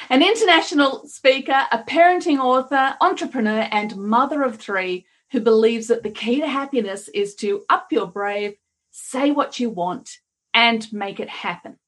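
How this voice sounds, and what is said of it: Australian accent with Kiwi tinge. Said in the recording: “You're going to get a few interesting accents today because I'm Australian, sort of Kiwi.”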